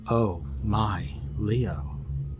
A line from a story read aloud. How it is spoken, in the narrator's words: Rosenberg said flatly